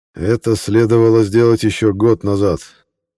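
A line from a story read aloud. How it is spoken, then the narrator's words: Gloomy. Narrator (Russian): мрачно произнес координатор Левинский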